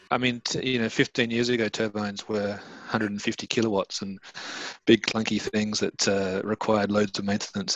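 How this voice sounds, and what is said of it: Australian accent. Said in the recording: “As you can probably tell from my accent, I'm from Australia”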